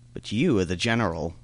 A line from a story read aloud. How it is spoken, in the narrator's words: replied Boisberthelot